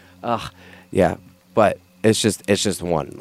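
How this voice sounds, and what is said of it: Usual voice. Nothing is said of it.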